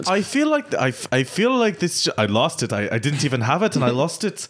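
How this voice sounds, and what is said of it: Put-on accent drifting toward Russian. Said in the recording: “It's becoming Russian. ... the migrating accents”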